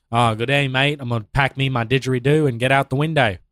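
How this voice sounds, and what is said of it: Put-on accent. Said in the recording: “I wasn't expecting you to go with the accent”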